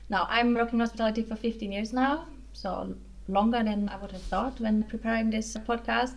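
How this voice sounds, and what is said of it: German accent. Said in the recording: “I am German, as you might hear from my accent.”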